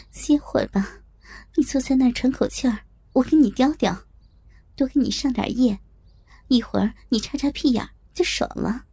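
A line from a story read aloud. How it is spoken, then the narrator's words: Laughing. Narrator (Chinese): 我……笑着对他说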